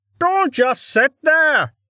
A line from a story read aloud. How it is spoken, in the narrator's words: Dell yelled